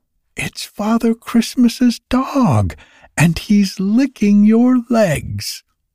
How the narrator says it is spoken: Patty cried from her post of observation

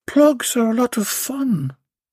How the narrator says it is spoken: moaned Belinda

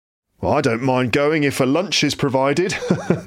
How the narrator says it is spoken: laughed one gentleman

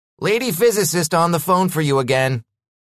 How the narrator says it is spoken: Carl called out

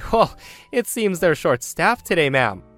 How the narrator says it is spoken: Me, not wanting to be awkward, let out a chuckle and say

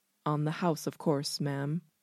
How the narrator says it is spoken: the waiter murmurs

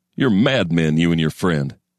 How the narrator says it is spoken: he'd have laughed, a snorting bull's laughter

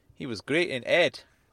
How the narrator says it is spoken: said

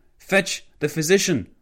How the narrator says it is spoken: House yelled at Flanagan

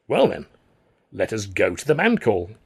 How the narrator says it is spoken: Alf said brightly

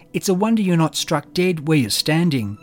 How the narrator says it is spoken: Dusty shouted

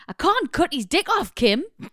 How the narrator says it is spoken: He looked at me in horror and shouted

